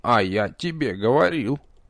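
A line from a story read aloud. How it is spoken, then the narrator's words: Grumpy creak from above. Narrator (Russian): сварливо проскрипел откуда-то сверху Нич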